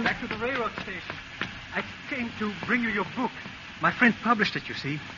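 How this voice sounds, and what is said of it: Man speaking with foreign accent. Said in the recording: “a man with sort of an accent.”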